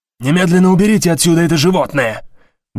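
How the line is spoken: Shouting. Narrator (Russian): выкрикнул Стоун

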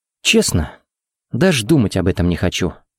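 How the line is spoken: Sad chuckle. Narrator (Russian): грустно усмехнулся Харри

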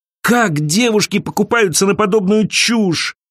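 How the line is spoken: Groaning. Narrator (Russian): простонала Элиза

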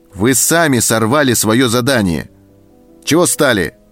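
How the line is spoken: Shouted. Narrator (Russian): крикнул он на своих

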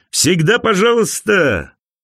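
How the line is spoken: Laughing. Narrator (Russian): Он рассмеялся

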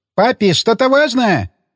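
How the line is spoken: Shouted. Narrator (Russian): прокричала Росита

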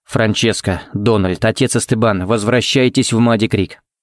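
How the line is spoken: Forced even calm tone. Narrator (Russian): сказал он самым ровным и спокойным тоном, на какой был способен

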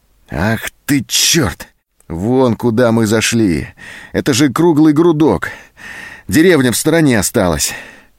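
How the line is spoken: Disappointed exhale. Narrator (Russian): Зоська разочарованно выдохнула

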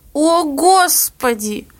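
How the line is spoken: Moaning. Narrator (Russian): простонала мама

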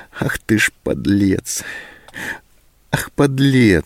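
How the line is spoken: Sobbing to herself. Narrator (Russian): сказала она себе, всхлипнув

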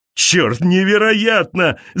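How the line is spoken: Shout. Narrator (Russian): закричал он

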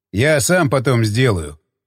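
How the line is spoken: Snort. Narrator (Russian): хмыкнул он

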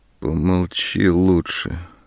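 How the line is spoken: Muffled interruption. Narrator (Russian): глухо перебила она

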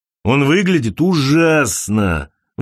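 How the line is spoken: Exclaiming. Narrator (Russian): воскликнул Винс

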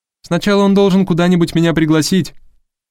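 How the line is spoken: Shout through a door. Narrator (Russian): крикнула Харпер ему через дверь

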